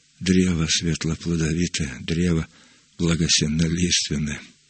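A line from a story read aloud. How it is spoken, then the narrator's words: Mutter. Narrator (Russian): пробормотал он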